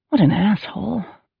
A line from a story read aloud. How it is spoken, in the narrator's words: Carrie muttered under her breath